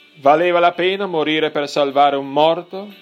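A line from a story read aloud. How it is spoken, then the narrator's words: Commander shouting. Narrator (Italian): gli gridò il comandante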